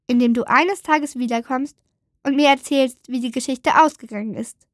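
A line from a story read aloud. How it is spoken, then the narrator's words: Plain. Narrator (German): sagte die Maus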